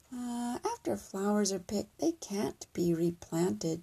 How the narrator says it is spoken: she said gently

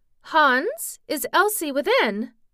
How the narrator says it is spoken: cried

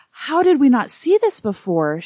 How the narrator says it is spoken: she gasped

